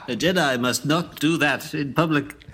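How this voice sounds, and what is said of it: Good impression of a movie character. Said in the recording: “That's a really good impression.”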